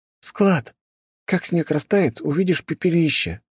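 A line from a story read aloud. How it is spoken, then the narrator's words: Sad sigh. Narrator (Russian): Грустно вздохнула Виктория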